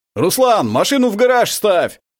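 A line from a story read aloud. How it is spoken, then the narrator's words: Shout from the porch. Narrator (Russian): крикнул с крыльца Андрей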